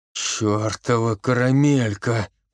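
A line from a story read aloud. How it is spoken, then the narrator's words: Groan. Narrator (Russian): простонал Соколовский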